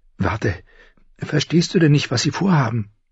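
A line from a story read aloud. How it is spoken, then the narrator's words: Excited. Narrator (German): sagte Samwell Tarly aufgeregt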